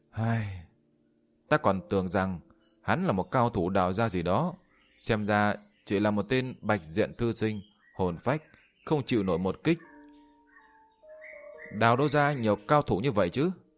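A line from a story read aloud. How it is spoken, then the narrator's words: Sighing. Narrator (Vietnamese): Yên Chi thở dài một hơi nói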